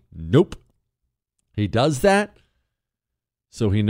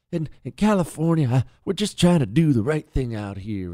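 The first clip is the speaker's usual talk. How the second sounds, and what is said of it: Soothing imitation of another's voice. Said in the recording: “that stupid little soothing voice he tries to do ... good Gavin Newsom impression”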